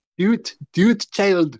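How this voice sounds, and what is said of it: Put-on Scottish accent. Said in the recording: “in a Scottish accent”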